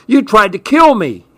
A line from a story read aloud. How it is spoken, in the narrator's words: he screeched